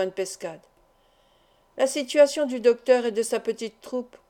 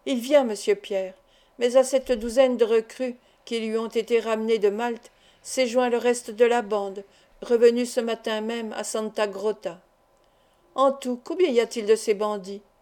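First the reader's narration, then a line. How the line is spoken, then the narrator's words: Plain question. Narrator (French): demanda le docteur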